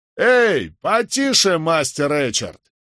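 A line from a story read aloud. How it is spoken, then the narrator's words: Shouted. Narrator (Russian): крикнул кто-то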